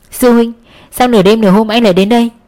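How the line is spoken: Smiling greeting. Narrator (Vietnamese): Cẩm Hy … mỉm cười chào hỏi

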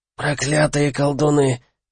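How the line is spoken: Hoarse, through broken mouth. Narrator (Russian): просипел Пеллини разбитым ртом

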